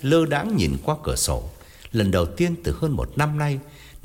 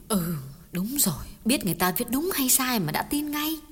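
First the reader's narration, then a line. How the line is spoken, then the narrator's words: Gentle, soft. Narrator (Vietnamese): Bà nhỏ nhẹ góp ý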